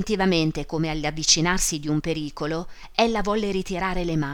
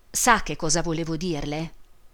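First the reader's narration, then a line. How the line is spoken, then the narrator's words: Low voice. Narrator (Italian): Disse infine a voce bassa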